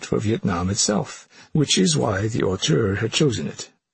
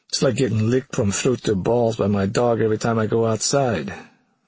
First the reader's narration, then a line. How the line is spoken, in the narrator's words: the unhappy production designer groaned